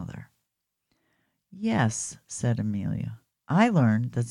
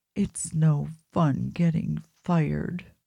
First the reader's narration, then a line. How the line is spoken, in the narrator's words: sobbed Amelia